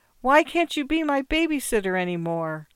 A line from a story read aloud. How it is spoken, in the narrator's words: cried